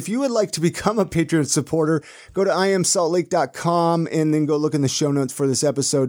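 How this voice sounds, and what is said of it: Smooth AM radio DJ voice. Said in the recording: “you sound like such a great DJ ... You just have this perfect like AM DJ voice.”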